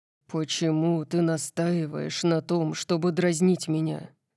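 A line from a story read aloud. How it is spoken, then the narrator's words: Low-voiced question. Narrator (Russian): спросил он низким голосом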